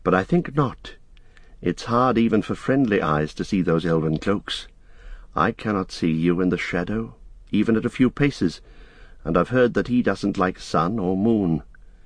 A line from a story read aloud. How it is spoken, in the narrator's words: said Frodo quietly